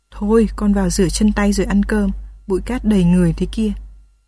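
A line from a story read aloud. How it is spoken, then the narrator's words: Sweetly, smiling. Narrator (Vietnamese): Bà Án mỉm cười, ngọt ngào bảo Nhung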